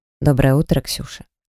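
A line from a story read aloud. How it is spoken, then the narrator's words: Gentle. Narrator (Russian): Лазарь ласково произнес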